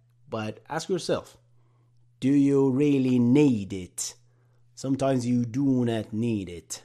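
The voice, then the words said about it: Poor put-on British accent. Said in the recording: “That was an awful British accent impression.”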